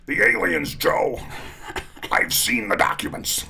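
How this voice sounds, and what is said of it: Raspy, gurgly imitated voice. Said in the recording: “Your impression of Alex Jones is too on point ... it really is the same voice ... Raspy, gurgly.”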